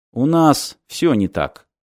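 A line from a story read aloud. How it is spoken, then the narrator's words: Gloomy admission. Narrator (Russian): мрачно признал Мартин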